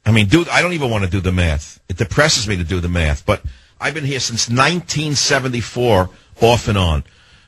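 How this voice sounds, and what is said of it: Strong New York accent. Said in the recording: “I have a bigger New York accent than she does ... it sounds like you live right next door ... he's too New York”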